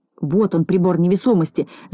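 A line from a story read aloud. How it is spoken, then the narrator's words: Shouting. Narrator (Russian): закричал доктор Пилюлькин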